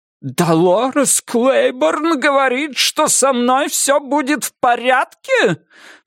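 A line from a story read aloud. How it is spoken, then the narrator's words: Dry, furious repetition. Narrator (Russian): повторяет она тем сухим бешеным голосом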